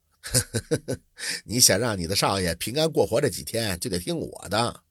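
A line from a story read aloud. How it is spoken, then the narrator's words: Calm, half-smiling. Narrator (Chinese): 刘墨林也不生气，似笑非笑的说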